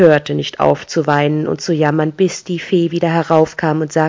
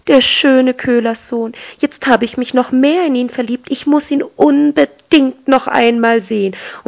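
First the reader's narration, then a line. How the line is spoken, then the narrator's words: Called out. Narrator (German): rief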